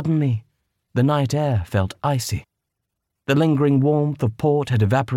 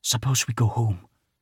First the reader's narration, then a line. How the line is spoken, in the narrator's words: Victoire whispered